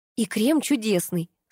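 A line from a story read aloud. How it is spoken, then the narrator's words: Plain. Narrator (Russian): сказала я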